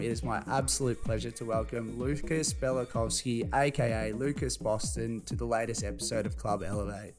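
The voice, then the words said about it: Breathless, running out of air. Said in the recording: “Always ran out of breath there. I forgot to take a breath in that last part.”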